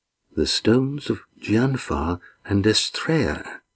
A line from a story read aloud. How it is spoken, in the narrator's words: he murmured